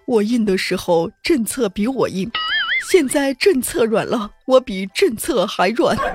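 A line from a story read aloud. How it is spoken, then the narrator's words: Heartbroken sigh. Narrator (Chinese): 一个七零后，他非常心酸的叹息，说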